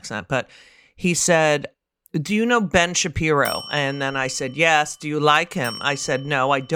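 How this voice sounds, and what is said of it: Usual voice. Nothing is said of it.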